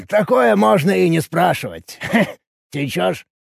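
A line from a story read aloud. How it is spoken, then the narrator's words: Bartender's snort. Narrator (Russian): хмыкнул бармен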